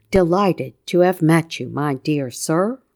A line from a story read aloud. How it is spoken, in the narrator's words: he said gravely